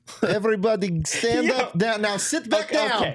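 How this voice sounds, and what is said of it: Put-on Swedish DJ voice. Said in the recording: “That was my impression of a Swedish DJ that's also a teacher.”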